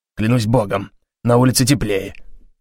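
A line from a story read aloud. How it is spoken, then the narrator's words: Grumbling. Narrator (Russian): пробурчал он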